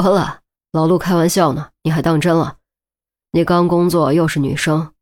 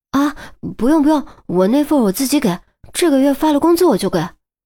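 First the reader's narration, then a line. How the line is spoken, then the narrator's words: Hurried. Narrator (Chinese): 于西急忙道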